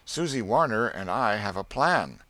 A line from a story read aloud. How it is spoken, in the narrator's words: he said to Mama in an apologetical tone